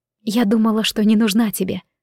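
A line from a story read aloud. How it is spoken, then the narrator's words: Timid whisper. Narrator (Russian): робко прошептала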